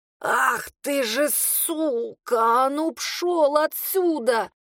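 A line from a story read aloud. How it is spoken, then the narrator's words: Strained hoarse forced out. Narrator (Russian): Еле выдавила из себя с хрипом и тяжестью в горле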